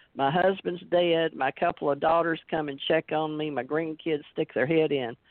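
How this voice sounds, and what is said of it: Thick regional accent. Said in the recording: “I'm getting thicker accent as I get older”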